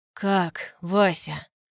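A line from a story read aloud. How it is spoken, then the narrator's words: Repeated question. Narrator (Russian): Повторяет вопрос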